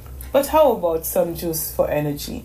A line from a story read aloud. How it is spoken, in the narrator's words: Donnemay yawned